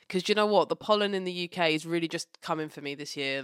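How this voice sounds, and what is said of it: Slightly funny, cold-affected voice. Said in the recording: “my voice sounds a bit funny, it's because I'm recovering from a hay fever cold situation”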